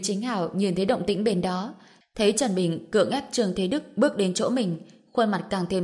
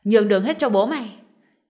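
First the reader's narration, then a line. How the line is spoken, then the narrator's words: Trembling, frightened shout. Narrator (Vietnamese): Trương Thế Đức run rẩy không ngừng xua tay, vừa lùi lại vừa hét lên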